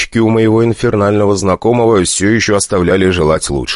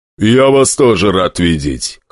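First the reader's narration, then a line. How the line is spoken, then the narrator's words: Smirking grunt. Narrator (Russian): хмыкнул демон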